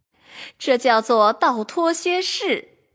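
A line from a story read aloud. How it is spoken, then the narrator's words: Laughing. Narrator (Chinese): 笑着说道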